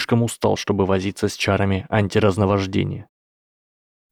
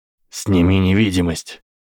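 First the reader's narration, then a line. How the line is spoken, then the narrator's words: Growling. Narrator (Russian): прорычал Барри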